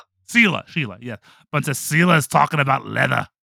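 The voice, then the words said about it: Put-on Australian accent. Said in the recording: “Sorry, that's my Australian accent.”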